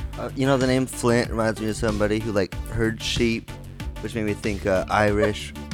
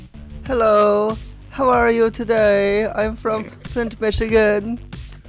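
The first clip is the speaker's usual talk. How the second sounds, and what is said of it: Put-on Irish accent. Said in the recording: “That was my best Irish accent.”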